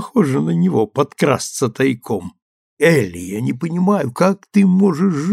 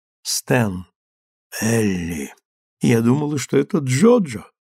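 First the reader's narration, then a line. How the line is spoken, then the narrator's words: Hoarse whisper. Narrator (Russian): шепнула она хрипло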